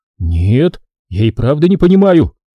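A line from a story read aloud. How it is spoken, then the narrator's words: Angry exclamation. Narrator (Russian): гневно воскликнул Тараон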